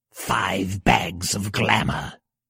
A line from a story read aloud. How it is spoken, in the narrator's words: hissed her blind sister